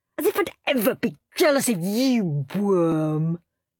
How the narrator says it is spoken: sneered Henry

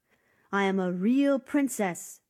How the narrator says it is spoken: shouted the wet princess

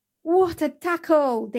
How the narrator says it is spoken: they cried

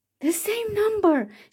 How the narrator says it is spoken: shouted Cinderella

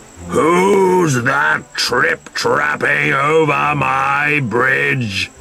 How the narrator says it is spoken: he roared

